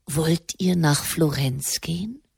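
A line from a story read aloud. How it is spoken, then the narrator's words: Quiet question. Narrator (German): Der Papst fragte leise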